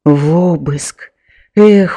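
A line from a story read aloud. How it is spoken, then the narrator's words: Sighing. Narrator (Belarusian): уздыхнуў ён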